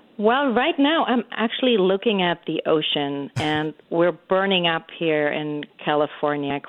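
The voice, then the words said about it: German accent. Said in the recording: “German-born ... you were born in Germany. You got this beautiful accent still that I love.”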